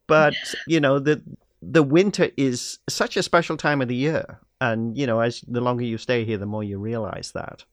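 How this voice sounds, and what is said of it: Non-Canadian foreign accent. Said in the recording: “you probably recognize from my accent, I'm not originally from Canada.”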